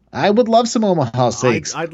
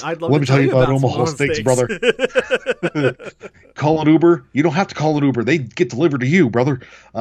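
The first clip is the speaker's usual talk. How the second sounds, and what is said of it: Weird wrestler promo voice. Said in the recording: “I don't know what accent that was, but I apologize for it. ... It was like Austin yet Hogan ... It was very weird. ... it was Stone Cold Hulk Hogan.”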